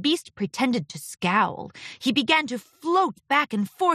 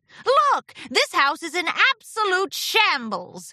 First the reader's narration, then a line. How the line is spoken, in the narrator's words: exclaimed Discord with a smirk